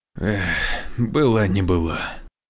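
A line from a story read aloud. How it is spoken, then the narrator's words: Resigned sigh. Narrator (Russian): вздохнул Александр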